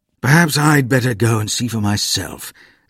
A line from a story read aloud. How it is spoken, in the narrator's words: said Father wearily